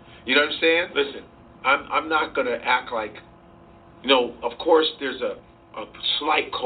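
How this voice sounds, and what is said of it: Usual voice. Nothing is said of it.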